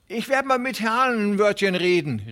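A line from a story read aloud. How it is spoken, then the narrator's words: Calling after. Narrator (German): rief ihm Hooven nach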